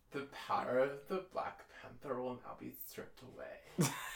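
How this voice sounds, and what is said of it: Drew Barrymore impression. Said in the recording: “Here is Drew Barrymore in Black Panther. ... how to do a Drew Barrymore accent. ... The trick to doing a Drew Barrymore accent is that you have to really try not to lisp.”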